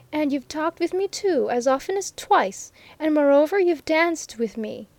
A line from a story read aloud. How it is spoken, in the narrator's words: she repeated triumphantly